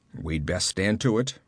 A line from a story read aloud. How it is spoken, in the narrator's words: growled the Cimmerian